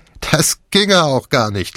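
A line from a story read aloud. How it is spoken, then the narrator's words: Laughing. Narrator (German): lachte Jeb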